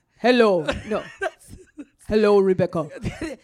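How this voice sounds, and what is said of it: Imitates a man's odd foreign accent. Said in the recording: “could you do an example of his accent? ... He sounds like he's from the Planet of the Apes ... that's not an Italian accent ... She nailed it.”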